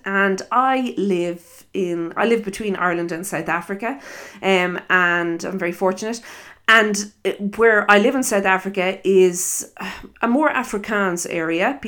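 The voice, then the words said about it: Irish accent. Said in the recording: “I am Irish, if you listen to my accent”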